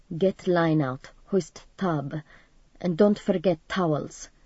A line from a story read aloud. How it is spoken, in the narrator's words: quietly